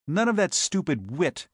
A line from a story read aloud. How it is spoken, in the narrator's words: he snapped